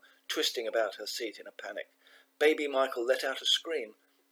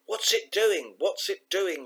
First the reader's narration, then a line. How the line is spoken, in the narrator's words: yelled her mum